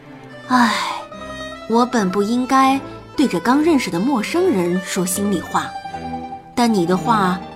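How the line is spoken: Deep sigh. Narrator (Chinese): 纸片人深深地叹息了一口气

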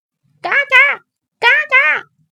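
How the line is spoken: Loud squawking. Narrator (Chinese): 一边扯开嗓子叫着

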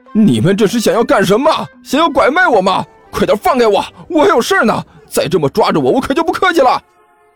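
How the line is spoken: Loud, straining shout. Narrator (Chinese): 甘球大声喊道，同时用力挣扎

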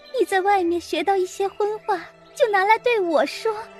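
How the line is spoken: Angry crying. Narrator (Chinese): 黛玉气得哭起来

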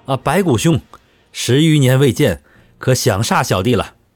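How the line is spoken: Loud, joyful call. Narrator (Chinese): 一个充满欣喜的声音，大声叫

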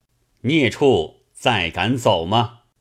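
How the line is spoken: Stern harsh rebuke. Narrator (Chinese): 真君乃随使君之后，直至房中，厉声叱曰

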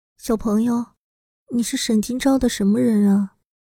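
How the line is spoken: Soft murmur. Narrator (Chinese): 乔可奈轻声的喃喃道

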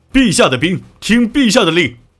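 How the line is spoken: Soldiers shouting. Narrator (Chinese): 台下的士兵喊道

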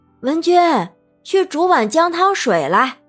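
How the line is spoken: Calling out. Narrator (Chinese): 冷雪茹叫道

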